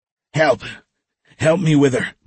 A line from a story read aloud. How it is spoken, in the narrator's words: Michael gasped